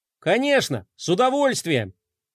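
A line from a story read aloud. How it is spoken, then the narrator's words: Cheerful exclamation. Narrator (Russian): весело воскликнул Флай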